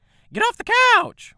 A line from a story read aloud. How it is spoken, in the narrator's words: Winifred cried, her high-pitched voice carrying through the plate-glass windows